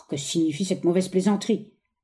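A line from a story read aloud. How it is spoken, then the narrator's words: Grumbling. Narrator (French): grommela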